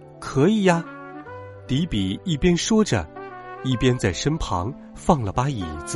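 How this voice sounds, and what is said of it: Usual voice. Nothing is said of it.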